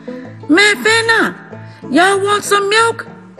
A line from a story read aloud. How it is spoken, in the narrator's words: my mama would holler across the fence